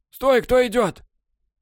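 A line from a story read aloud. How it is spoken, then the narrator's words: Hoarse, cold-roughened voice. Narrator (Russian): сиплый, простуженный голос произнес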